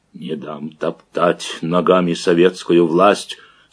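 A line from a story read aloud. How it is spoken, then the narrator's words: Growling through clenched teeth. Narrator (Russian): сквозь стиснутые зубы рычал Макар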